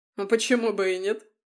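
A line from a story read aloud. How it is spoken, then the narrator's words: Chuckling. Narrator (Russian): хохотнул он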